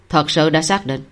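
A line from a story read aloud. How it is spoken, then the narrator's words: Glad question. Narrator (Vietnamese): Cảnh Giật cũng cảm thấy vui mừng, liền hỏi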